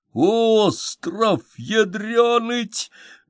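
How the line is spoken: Stunned breathless exclamation. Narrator (Russian): выдохнул потрясенный Матвеич

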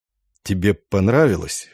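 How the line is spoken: Hoarse question. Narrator (Russian): хрипло спросил Сенкевич

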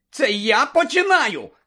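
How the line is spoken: Pale, frightened shout. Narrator (Ukrainian): закричав Шеймус, котрий навпаки весь поблід

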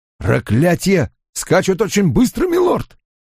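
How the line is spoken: Harsh loud voice. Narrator (Russian): Голос у него был резок и громок, он будто кричал, когда просто говорил

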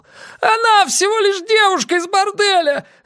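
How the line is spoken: Shouting. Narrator (Russian): закричал он

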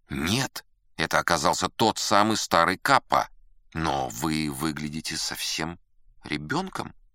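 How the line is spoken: Muttered. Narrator (Russian): пробормотал я

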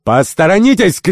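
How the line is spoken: Shout at riders. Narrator (Russian): крикнул Керабан всадникам

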